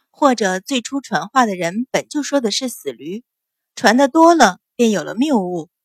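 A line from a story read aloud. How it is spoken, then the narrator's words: Smiling. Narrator (Chinese): 阮云欢微笑道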